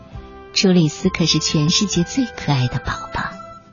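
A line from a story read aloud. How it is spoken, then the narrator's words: Parents admiring in unison. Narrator (Chinese): 爸爸妈妈齐声赞叹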